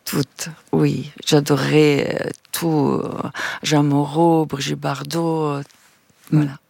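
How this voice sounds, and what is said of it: Foreign accent in French. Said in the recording (French): “encore aujourd'hui, j'ai un accent ... Un accent,”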